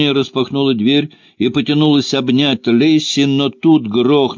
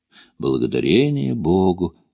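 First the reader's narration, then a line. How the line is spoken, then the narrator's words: Soft mutter. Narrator (Russian): тихонько пробормотала Мона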